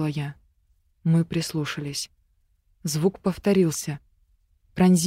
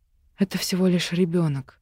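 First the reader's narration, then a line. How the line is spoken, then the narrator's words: Relieved exhale. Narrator (Russian): выдохнула с облегчением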